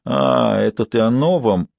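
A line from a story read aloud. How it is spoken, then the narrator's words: Mumbling. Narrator (Russian): пробормотала она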